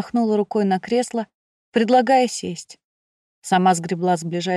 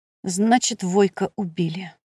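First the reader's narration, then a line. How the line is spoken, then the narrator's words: Sighing. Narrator (Russian): вздохнул он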